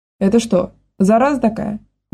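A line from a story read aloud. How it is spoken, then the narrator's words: Exclamation. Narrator (Russian): воскликнул Гошка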